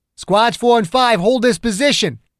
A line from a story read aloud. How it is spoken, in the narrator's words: Ogden shouted